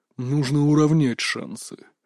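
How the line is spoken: Big man's hiss. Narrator (Russian): прошипел здоровяк

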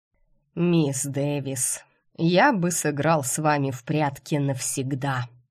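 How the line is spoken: Sighing doctor. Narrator (Russian): вздохнув, проговорил главный лекарь

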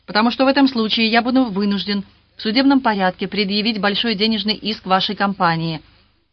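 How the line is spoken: Sharp reply. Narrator (Russian): резко ответил Роберт

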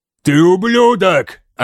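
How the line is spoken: Furious yelling. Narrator (Russian): орал мерсиец

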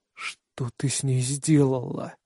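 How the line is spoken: Hoarse question. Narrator (Russian): осипшим голосом спрашиваю

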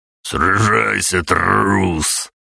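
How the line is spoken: Growl. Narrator (Russian): прорычал он

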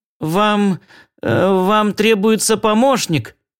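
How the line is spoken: Mumbled. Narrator (Russian): промямлил я

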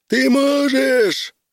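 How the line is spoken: Yelling. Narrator (Russian): вопил он

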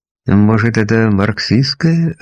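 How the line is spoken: Timid suggestion. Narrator (Russian): робко предположил я

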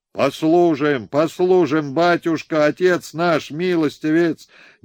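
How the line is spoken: Frenzied crowd shouting. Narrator (Russian): неистово закричала огромная толпа крестьян, казаков, солдат

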